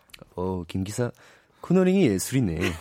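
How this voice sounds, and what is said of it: Imitates another person's voice. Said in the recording (Korean): “이선균님 성대모사 엄청 잘하던데 ... 비슷하지 않아요 ... 비슷해요 ... 점점 비슷해진다”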